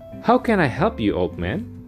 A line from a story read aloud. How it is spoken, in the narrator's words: asked Arthur